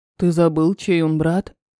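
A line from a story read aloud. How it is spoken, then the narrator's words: Gloomy. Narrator (Russian): мрачно сказал Терри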